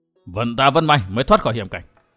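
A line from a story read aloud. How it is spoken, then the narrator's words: Relieved old man's mutter. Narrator (Vietnamese): lão còn quay đầu nhìn một lượt, hít một hơi dài lãnh khí, lẩm bẩm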